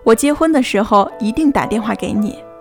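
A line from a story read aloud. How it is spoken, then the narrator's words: Smiling, cheerful. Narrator (Chinese): 你的同桌 笑着跟你说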